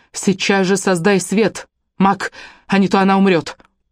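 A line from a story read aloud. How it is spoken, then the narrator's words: Sharp cry. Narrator (Russian): Вскрикнув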